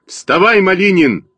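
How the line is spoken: Shouting. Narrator (Russian): закричал я на Костю

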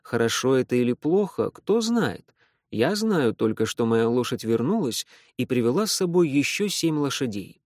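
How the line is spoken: Gentle smiling peasant. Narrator (Russian): Но крестьянин лишь мягко улыбался и отвечал

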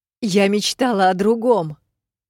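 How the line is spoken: Shouting. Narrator (Russian): выкрикнула я

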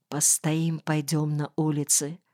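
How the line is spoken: Whisper. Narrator (Russian): шепнул Кирке

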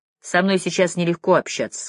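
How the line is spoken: Plain. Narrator (Russian): сказала Рина

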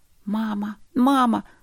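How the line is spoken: Children squealing. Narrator (Russian): запищали дети

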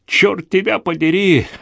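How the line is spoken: Yelling. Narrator (Russian): заорал Билли

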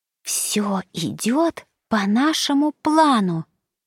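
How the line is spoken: Whisper. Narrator (Russian): прошептала Саня

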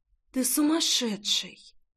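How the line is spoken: Shocked breathless whisper. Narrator (Russian): Находясь в шоке и в то же время не в силах побороть нарастающую пульсацию, прошептала Рейна

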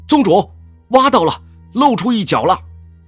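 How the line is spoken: Distant ecstatic shout. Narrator (Chinese): 殿后传来一声欣喜若狂的呼喊

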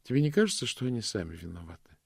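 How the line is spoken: Gentle question. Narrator (Russian): спросила госпожа Ласка нежно

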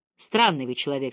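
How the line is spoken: Cold. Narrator (Russian): сказал он холодно

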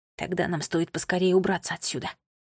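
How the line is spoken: Quiet remark. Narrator (Russian): негромко заметил Томми

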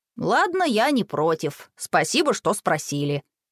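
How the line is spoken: Grumbling. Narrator (Russian): проворчал Макс

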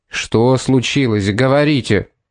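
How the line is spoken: Menacing demand. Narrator (Russian): Грозно потребовал суперинтендант

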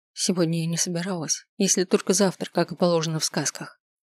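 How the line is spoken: Pleased whisper. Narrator (Russian): прошептала, с удовольствием

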